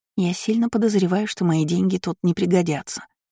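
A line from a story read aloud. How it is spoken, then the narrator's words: Whisper. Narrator (Russian): прошептала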